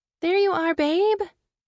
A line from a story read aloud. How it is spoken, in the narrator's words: she cooed